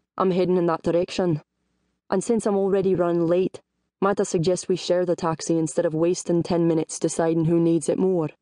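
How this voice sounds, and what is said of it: Rumbling, gravelly smooth Scottish accent. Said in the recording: “in a rumbling, gravelly voice ... a smooth Scots accent”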